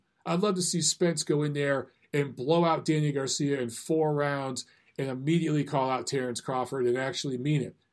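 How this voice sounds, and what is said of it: Strained, worn-out voice. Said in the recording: “my voice is dying here”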